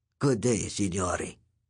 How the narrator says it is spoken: He said, in a dry, metallic voice like a cicada's

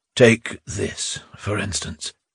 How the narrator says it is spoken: said with a sigh

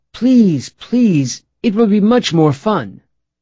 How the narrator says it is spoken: exclaiming

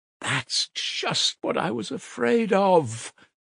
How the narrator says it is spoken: Porfiry cried warmly, and, as it seemed, involuntarily

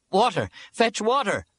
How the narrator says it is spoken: I shouted

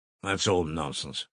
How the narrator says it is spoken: muttered Pyotr Petrovitch, somewhat disconcerted

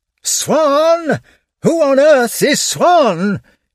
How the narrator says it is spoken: he shouted in a frenzy of anxiety

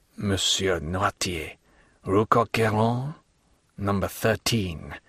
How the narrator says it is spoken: murmured he, growing still paler

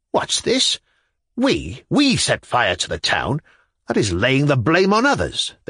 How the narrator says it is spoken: they exclaimed

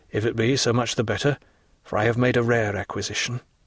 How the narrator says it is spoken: murmured

